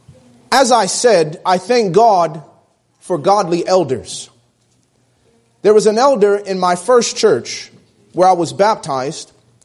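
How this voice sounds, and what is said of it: Northern accent. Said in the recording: “my northern accent”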